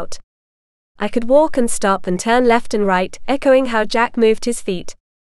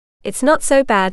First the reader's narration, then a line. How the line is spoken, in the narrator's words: she said